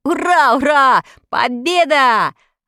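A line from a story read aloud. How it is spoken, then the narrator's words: Joyful yell. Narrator (Russian): радостно заорал Тим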